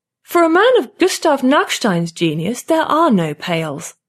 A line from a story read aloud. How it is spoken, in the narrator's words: Lotta says haughtily